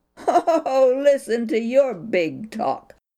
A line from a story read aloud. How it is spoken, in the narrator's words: his brother jeered in anger